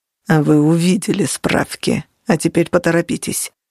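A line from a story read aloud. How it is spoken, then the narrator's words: Growl. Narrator (Russian): прорычал он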